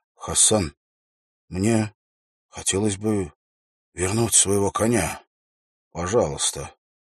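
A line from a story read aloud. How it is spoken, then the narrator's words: Quiet voice. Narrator (Russian): Уилл произнес тихим голосом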